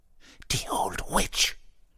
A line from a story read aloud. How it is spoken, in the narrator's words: muttering in Polish in a frightened voice